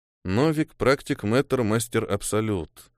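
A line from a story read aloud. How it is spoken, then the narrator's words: Thoughtful repetition. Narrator (Russian): задумчиво повторил Неэль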